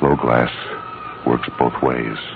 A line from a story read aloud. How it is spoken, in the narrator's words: I said gently